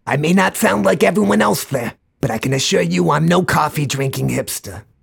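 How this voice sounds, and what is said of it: Slightly exaggerated New York accent. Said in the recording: “where did you get that accent? I think it's pretty obvious, the greatest city on earth, New York City ... I exaggerate the accent a little bit”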